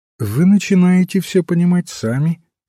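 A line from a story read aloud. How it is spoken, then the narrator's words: Plain. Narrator (Russian): сказал отец Браун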